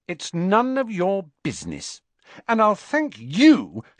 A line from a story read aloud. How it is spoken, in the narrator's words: she added angrily to Ron